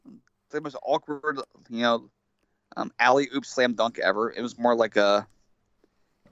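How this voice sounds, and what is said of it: Usual voice. Nothing is said of it.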